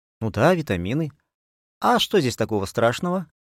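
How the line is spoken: Cooing woman. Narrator (Russian): проворковала тетя Таня

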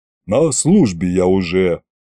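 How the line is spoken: Soldier's grumble. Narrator (Russian): пробурчал центурион

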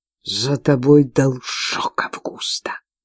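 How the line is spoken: Hiss. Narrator (Russian): прошипела Антуана

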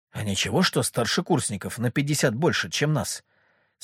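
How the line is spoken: Whispered question. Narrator (Russian): спросил шепотом Шебутнов

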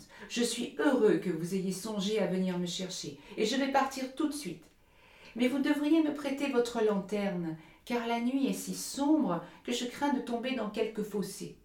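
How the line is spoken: Child crying out. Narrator (French): s'écria le petit Hans

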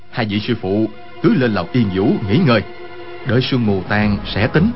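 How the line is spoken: Worried lowered voice. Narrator (Vietnamese): Quách Tĩnh sợ hai vị sư phụ gặp chuyện bất trắc, hạ giọng nói

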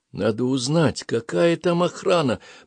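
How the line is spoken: Whisper. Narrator (Russian): прошептала Ада

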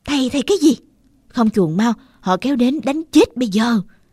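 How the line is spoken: Shouted. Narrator (Vietnamese): Tôi hét lên

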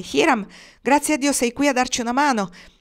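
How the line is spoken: Firefighter exclaiming. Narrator (Italian): sentirono un pompiere esclamare

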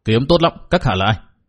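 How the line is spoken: Shouted question. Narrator (Vietnamese): Liễu Tồn Trung quát hỏi

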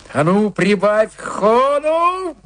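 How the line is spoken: Yelling. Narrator (Russian): завопил Джо

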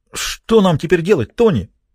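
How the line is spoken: Frightened question. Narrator (Russian): испуганно спросил Рокко

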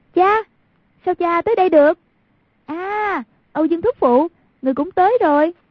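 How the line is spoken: Urgent loud call. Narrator (Vietnamese): Thấy cục diện trước mắt đã vô cùng nguy cấp, lập tức cao giọng kêu

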